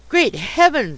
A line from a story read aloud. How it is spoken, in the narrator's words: exclaimed my acquaintance